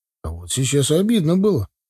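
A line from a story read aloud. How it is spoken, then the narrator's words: Grumbling young man. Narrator (Russian): проворчал парень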